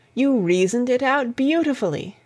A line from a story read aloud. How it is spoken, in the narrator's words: I exclaimed, in unfeigned admiration